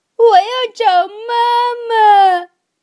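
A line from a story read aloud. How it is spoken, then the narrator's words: Loud crying. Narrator (Chinese): 布朗宝贝儿大声的哭起来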